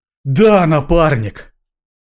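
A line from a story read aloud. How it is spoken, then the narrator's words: Sighed. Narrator (Russian): вздохнул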